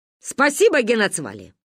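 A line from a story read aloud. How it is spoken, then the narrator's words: Loud bark. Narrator (Russian): гаркнула она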